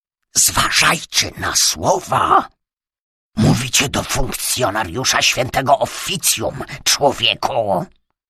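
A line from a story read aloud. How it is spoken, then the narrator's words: Stage whisper. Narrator (Polish): wygłosił scenicznym szeptem Ritter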